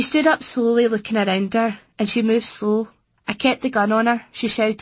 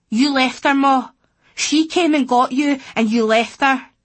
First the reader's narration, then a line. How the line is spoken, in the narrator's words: I shouted again